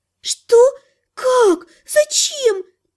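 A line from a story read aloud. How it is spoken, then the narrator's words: Nervous offended exclamation. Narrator (Russian): На нервах оскорбленно воскликнула Лана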